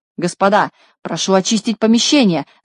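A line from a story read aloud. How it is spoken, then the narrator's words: Frightened shout. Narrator (Russian): закричал, испугавшись, Хабс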